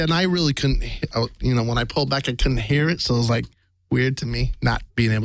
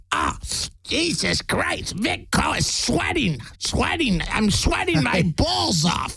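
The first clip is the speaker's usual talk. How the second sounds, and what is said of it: Impression of Gilbert Gottfried. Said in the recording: “I'm famous for my Gilbert Godfrey ... A couple lines of Gilbert ... That was really good.”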